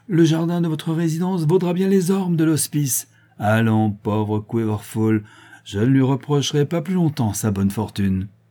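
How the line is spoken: Triumphant tone. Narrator (French): dit l'archidiacre d'un ton triomphant

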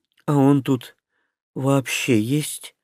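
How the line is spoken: Unexpectedly weary question. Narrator (Russian): как-то неожиданно устало спросила Шарха

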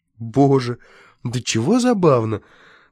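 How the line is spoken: Exclaiming. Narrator (Russian): воскликнул Владимир

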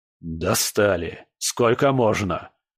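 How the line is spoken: Angry grumble. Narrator (Russian): сердито проворчал он

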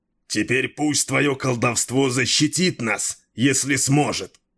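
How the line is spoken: Growl. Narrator (Russian): прорычал Дрибек

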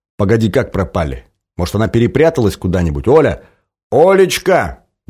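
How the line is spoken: Loud calling out. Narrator (Russian): громко позвал хранитель

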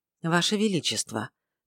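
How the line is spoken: Soft opening. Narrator (Russian): мягко начал

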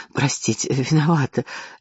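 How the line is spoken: Babbling apologetically. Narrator (Russian): лепетала она

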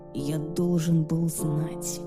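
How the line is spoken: Whisper. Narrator (Russian): прошептал Люциан

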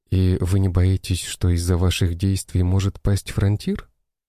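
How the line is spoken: Plain. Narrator (Russian): спросила Катя

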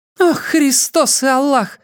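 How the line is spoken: Exclaimed. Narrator (Russian): воскликнула леди Даяна

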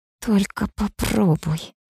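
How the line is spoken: Hissing through teeth. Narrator (Russian): шиплю я сквозь зубы

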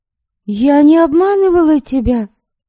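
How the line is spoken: Exclaiming. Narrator (Russian): воскликнула Ярисава

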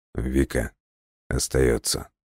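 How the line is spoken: Quiet. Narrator (Russian): тихо произнес Лесков

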